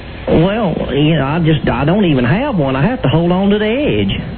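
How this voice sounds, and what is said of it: Southern accent, possibly put on. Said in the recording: “phony accents ... South Carolina ... drop the accent”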